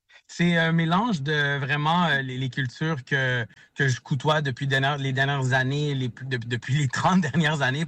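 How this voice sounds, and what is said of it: Québécois French accent. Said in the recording (French): “Tu peux l'entendre dans mon accent québécois”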